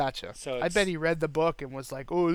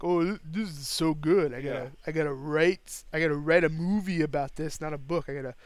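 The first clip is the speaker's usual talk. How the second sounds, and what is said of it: Imitates another person's voice. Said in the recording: “That's my Sly Stallone impression... That's just how he sounds”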